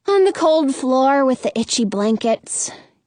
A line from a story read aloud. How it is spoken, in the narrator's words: Gerda says with a sigh